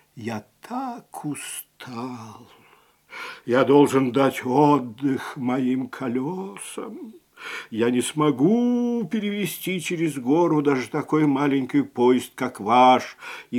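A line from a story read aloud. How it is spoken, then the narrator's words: Old engine sighing. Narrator (Russian): старый паровоз вздохнул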